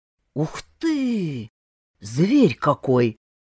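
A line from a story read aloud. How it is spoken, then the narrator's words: Surprised drawl. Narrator (Russian): удивленно протянул Павел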